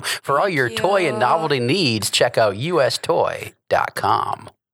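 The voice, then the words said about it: Put-on radio announcer voice. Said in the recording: “that's my radio voice I put on for a while. I kind of faked it.”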